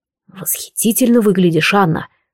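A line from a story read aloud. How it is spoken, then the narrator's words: Hoarse breathy exhale. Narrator (Russian): хрипло выдохнул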